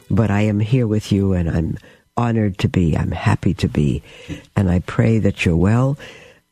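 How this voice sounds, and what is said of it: Hoarse voice from a cold. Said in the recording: “My cold is probably a little worse, so I sound quite hoarse.”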